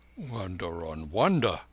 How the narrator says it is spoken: murmured the letter writer

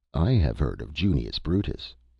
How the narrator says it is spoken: observed the doctor, chuckling slightly at his own humor

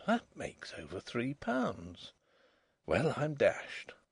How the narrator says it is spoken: The young man on the beach murmured

